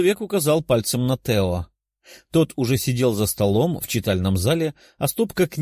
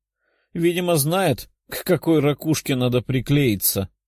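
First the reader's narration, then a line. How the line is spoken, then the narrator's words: Short chuckle. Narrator (Russian): хохотнул человек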